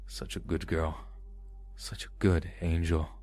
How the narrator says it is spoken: he whispered in my ear

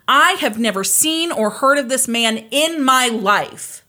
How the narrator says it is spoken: Candy yelled out in court

